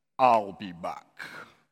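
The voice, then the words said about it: Imitates another person's voice. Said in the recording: “my best Arnold Schwarzenegger impression.”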